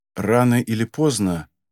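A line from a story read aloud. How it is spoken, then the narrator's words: Calm, trying to convince. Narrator (Russian): спокойно отвечает стараясь вложить в голос побольше убедительности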